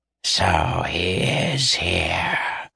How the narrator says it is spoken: hissed the first

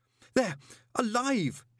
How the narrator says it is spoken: he gasped

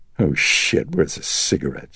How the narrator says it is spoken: She sighed tremulously

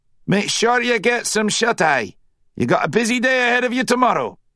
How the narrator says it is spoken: the corporal bellowed

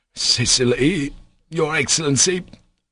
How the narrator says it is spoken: faltered the captain

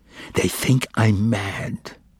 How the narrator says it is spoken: whispered, and tears like drops of wax flowed from his eyes

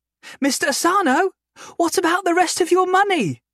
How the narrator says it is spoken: Isabella called out

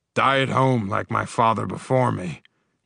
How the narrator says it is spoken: grunted the Hurig Meaton

